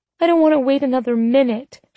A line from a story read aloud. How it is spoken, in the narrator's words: she whined